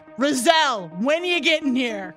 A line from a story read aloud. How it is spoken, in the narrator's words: politely yell over my shoulder